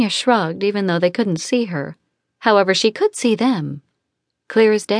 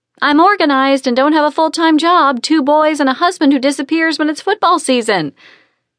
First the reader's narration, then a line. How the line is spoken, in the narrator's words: Sonia replied loudly